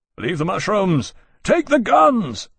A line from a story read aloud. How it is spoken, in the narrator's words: Lawrence cupped his hands over his mouth to roar over the commotion